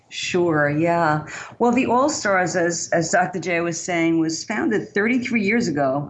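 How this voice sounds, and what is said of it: Bronx New York accent. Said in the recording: “We started in the Bronx, New York, which you probably can tell from my accent is where I'm originally from.”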